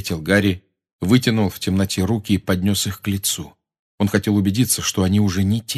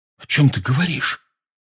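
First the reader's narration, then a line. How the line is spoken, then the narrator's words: Frightened question. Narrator (Russian): испуганно спросил Рон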